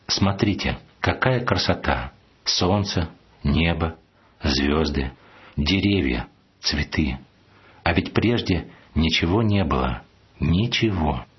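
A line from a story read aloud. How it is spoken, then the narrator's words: Priest, slow repetition. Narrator (Russian): медленно повторил батюшка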